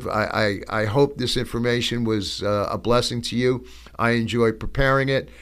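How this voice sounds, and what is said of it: Strained, failing voice. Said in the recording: “I'm losing my voice here”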